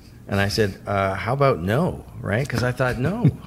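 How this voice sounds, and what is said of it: Usual voice. Nothing is said of it.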